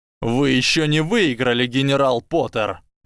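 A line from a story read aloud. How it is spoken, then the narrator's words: Barked shout. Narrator (Russian): рявкнул Драко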